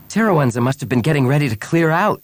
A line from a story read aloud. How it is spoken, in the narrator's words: Bria exclaimed